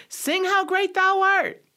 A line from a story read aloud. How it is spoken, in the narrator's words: somebody shouted